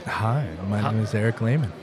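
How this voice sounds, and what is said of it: Good radio voice. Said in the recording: “Oh, wow, that sounded great. ... I'm told I have a good radio voice.”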